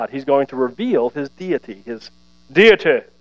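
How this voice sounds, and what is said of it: Mock English accent on a word. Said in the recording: “Anytime you say deity, you got to say it with an English accent”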